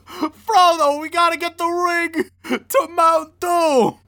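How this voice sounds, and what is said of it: Joey Wheeler cartoon character impression. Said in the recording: “It's always Joey! ... Joey Wheeler ... as the universal impression”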